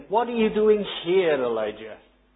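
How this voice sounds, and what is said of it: Stresses the word "here". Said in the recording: “if the accent's on the "here,"”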